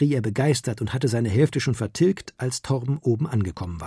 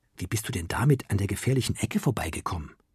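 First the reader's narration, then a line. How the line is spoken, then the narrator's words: Curious whisper. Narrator (German): flüsterte er neugierig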